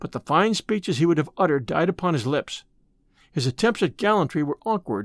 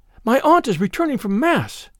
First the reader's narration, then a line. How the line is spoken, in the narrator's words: cried the damsel in a fright